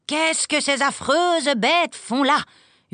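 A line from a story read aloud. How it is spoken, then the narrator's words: Terrified scream. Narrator (French): hurla mademoiselle Rottenmeier, épouvantée lorsqu'elle entendit les chatons miauler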